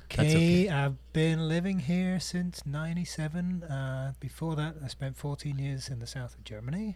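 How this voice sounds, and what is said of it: British accent. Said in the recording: “the accent says it all, right? I'm from the UK.”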